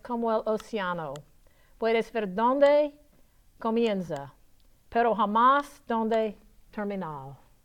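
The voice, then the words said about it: Spanish in a Southern American accent. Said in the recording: “how bad did I southern my southern accent butcher your language? ... It was passable.”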